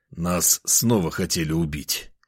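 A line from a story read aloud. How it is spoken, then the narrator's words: Hoarse reply, coughing. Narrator (Russian): хрипло ответил я и закашлялся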